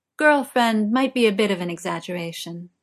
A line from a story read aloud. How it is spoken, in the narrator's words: Morgana says, trying to keep her tone light